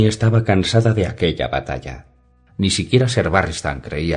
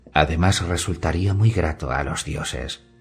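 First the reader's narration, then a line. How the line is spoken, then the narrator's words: Low, kind voice. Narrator (Spanish): añadió la Gracia Verde con su voz baja y amable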